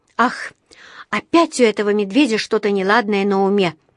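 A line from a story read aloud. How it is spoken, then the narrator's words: Sighing. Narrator (Russian): вздохнула она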